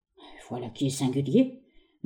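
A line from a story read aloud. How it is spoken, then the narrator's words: Doctor murmured pensively. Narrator (French): murmura le docteur Johnson, devenu pensif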